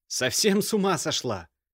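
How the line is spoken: Barked. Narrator (Russian): рявкнул Алексей

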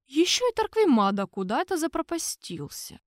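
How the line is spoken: Heavy sigh. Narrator (Russian): тяжело вздохнул Дюшевуа

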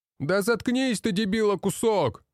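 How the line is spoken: Distant shout. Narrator (Russian): Выкрикнули с другой части казармы

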